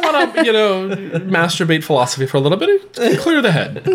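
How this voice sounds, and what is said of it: Usual voice. Nothing is said of it.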